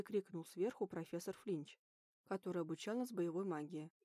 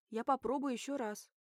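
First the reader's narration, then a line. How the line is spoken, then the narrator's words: Shouted reply over laughter. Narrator (Russian): крикнула в ответ под громкие смешки студентов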